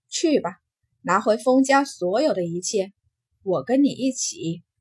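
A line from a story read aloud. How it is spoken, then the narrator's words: Soft sigh. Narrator (Chinese): 金红只是轻叹了口气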